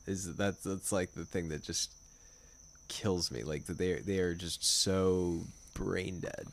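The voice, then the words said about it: Heavy vocal fry. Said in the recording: “my vocal fry is, like... bordering on, so, like, Red Scare”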